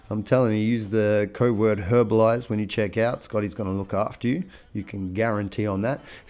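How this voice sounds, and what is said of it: Rough, congested voice. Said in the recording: “Excuse my voice. I got a little, just getting over a bit of a cold at the moment.”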